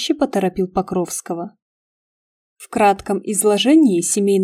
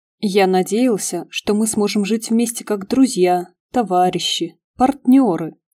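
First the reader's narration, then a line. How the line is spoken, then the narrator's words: Plain. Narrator (Russian): сказал Покровский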